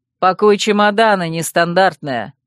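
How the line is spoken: Loud. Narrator (Russian): громко сказал Рольер

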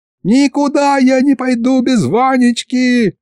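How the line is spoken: Yelling. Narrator (Russian): заорала была Дашка

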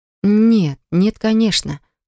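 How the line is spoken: Sighing. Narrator (Russian): Поля вздохнула

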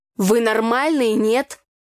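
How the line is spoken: Angry speech. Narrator (Russian): сердито проговорил брат

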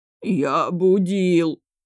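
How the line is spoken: Louder whining. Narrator (Russian): еще громче заскулил тот

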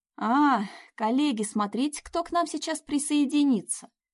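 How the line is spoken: Cheerful loud announcement. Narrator (Russian): бодро объявил на весь стол Кирилл

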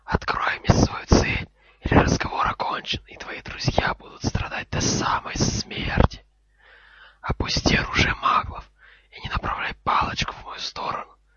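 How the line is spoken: Cold, dangerous hiss. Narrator (Russian): ответил Гарри изо всех сил, стараясь, чтобы его шипение прозвучало как можно холоднее и опаснее

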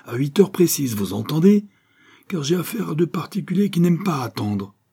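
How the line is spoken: Shouting. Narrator (French): criait-il

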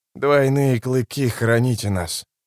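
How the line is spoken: Hoarse whisper. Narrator (Russian): хрипло прошептал Итковиан

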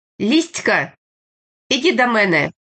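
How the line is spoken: Shout. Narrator (Russian): кричала

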